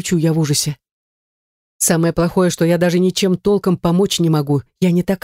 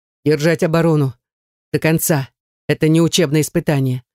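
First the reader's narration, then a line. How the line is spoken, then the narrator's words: Dry command. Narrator (Russian): Сухо приказывает нам Наяр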